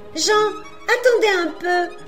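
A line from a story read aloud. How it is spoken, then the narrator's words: Joyful little girl's shout. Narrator (French): cria en ce moment une joyeuse voix de petite fille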